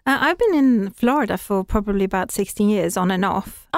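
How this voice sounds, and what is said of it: Swedish-English blended accent. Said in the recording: “fantastic accent ... I'm Swedish, actually, originally, but I've spent a lot of time in England, so I suppose I took the English accent ... a little mesh going on of the two”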